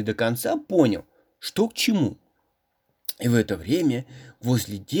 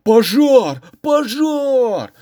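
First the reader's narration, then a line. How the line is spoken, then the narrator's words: Yelling again. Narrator (Russian): снова заорали те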